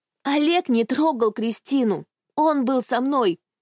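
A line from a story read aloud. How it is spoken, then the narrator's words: Desperate shout. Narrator (Russian): закричала я в отчаянии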